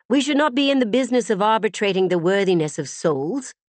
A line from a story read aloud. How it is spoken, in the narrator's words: Claire said harshly